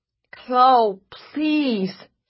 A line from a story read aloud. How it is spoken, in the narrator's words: he called, his voice desperate, a little slurred